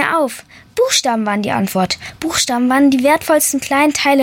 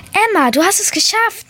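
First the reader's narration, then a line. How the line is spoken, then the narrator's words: Called out. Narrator (German): rief meine erste Letra-Möwe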